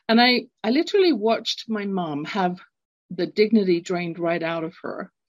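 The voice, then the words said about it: London English accent. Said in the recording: “growing up, London, England. You can tell from my accent, I'm not born in North America.”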